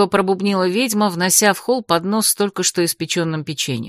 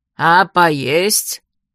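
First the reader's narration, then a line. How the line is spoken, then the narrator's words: Menacing shout, witch. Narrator (Russian): грозно прикрикнула ведьма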